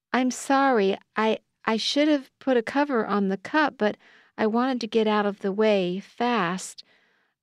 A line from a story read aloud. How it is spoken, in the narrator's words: I stammered